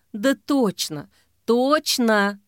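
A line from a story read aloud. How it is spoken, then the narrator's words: Sigh. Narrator (Russian): вздохнула Ксения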